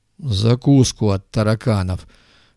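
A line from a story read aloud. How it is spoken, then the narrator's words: Lazy, muffled, indistinct joke. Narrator (Russian): Лениво схохмел второй голос, заметно глуше и неразборчивее первого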